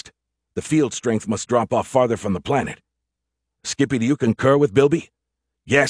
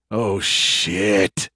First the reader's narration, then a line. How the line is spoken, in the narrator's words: he groaned